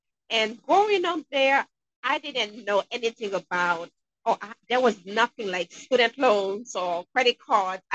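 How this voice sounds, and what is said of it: Haitian accent. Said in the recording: “I'm sure you guys can hear an accent. I'm originally from Haiti.”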